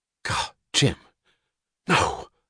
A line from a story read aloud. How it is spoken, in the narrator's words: gasped Wesley Mouch